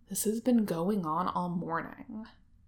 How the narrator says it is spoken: he grumbles, after a series of loud explosions from a nearby outbuilding

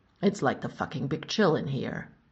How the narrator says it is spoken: Tony grumbled

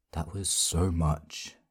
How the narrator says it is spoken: Adam whispered back

